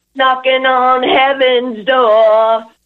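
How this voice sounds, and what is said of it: Imitates a rock singer's voice. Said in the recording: “your best Axl Rose impression”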